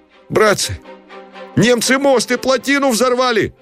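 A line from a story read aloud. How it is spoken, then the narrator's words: Startled, frightened shout. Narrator (Russian): крикнул кто-то с выражением догадки, изумления и страха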